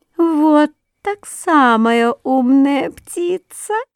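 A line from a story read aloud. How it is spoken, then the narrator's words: Thin giggling little voice. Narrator (Russian): послышалось хихиканье, и тоненький голосок сказал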